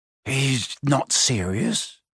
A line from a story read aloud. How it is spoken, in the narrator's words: he muttered to Percy